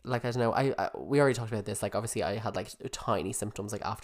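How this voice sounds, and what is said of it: Congested voice from a cold. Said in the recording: “I'm feeling a bit congested today... why do I have a cold?”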